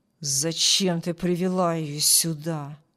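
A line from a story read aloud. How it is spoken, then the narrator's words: Angry question. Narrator (Russian): Злобно спросил Харпер у Джилл, добавляя оскорбительные эпитеты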